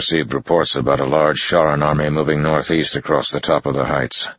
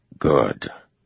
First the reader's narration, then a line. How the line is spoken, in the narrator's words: Land said softly